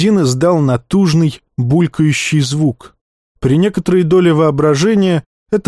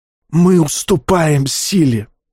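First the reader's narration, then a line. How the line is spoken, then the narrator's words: Man wheezing. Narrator (Russian): просипел брюнет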